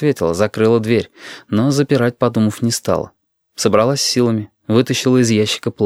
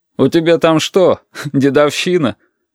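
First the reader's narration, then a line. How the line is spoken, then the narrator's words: Laughing. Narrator (Russian): Оксана смеялась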